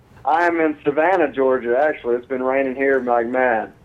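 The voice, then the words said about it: Southern US accent. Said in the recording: “you have that nice southern accent going on ... you sound like a good old southern boy”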